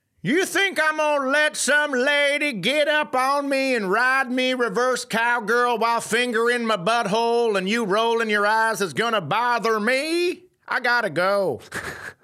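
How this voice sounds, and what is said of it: Comic character voice. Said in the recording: “I'm going to do the voice as another person who has been made fun of for their fetish.”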